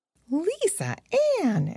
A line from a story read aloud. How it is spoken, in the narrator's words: exclaimed Annalise in astonishment